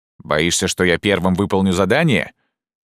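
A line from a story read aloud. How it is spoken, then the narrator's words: Deep booming voice. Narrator (Russian): пробасил тот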